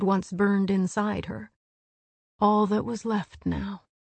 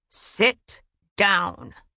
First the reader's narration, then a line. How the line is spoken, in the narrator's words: Rhys snarled